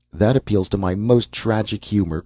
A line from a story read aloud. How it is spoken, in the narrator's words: cried the man